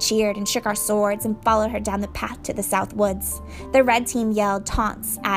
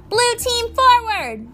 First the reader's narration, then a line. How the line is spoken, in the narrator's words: Annabeth yelled